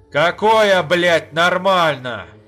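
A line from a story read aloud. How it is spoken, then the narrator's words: Shouted. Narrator (Russian): закричал Ха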